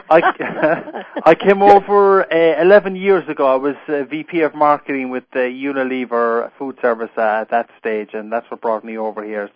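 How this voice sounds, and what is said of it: Irish accent. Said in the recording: “Keep the Irish. It works better.”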